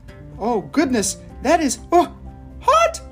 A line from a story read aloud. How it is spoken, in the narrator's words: squeaked